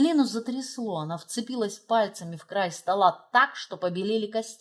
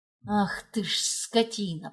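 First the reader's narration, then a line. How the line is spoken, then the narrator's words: Hissed. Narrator (Russian): прошипела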